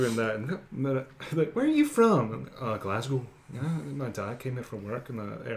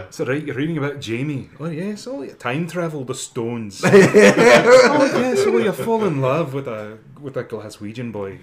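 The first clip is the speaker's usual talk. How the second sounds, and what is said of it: Put-on Scottish accent. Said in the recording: “I like to be Scottish”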